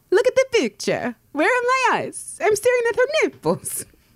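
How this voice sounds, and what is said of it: Put-on Italian accent. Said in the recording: “Do it again in an Italian accent.”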